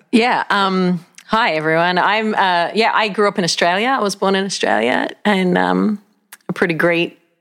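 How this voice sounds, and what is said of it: Australian accent. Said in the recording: “she has a great accent.”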